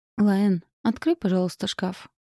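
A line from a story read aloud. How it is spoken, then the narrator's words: Quiet request. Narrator (Russian): попросила тихо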